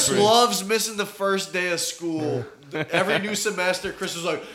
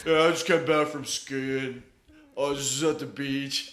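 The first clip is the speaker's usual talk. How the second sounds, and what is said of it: Dopey stuffy-nosed put-on accent. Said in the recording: “that accent ... my dummy vacation accent with a cold”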